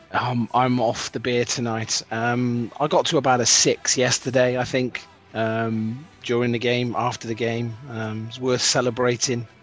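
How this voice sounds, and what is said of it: Strained, not fully recovered voice. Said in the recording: “my voice is still not quite recovered from shouting and screaming when the goals went in”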